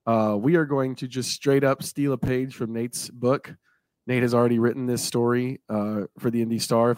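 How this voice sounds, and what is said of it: Strained, partly lost voice. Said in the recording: “I apologize if my voice sounds a little bit off. Kind of lost it last week, trying to get it back. Almost there.”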